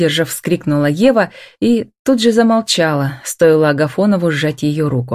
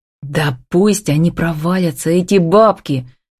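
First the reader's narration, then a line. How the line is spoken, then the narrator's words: Angry growl. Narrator (Russian): в сердцах рыкнул Демьяновский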